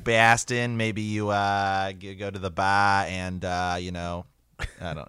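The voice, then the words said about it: Weak put-on Boston accent. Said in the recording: “that's about that's the full extent of my Baston accent ... I've barely got a Boston one”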